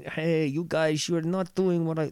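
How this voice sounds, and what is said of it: Put-on Dutch accent. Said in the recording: “That's a Dutch accent”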